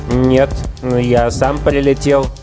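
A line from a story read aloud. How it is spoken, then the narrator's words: Stammering answer. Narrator (Russian): запинаясь, ответил Бхимасена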